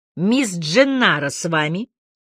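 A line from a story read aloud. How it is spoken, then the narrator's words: Deep bass voice. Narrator (Russian): басом сказал я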